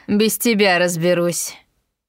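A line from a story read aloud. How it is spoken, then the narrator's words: Rude interruption. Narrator (Russian): грубо оборвала меня Агнесса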